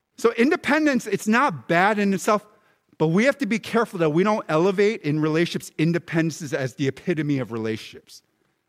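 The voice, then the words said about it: American Philadelphia-Baltimore accent. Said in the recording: “I speak in an American Philly Balmer accent”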